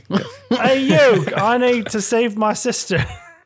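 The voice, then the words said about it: Put-on Australian accent. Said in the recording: “I don't know where the Australian accent came from”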